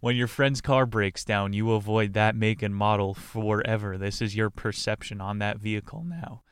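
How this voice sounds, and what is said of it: Cracking, strained voice. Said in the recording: “Sounds like I'm dying ... my voice is cracking, round two puberty”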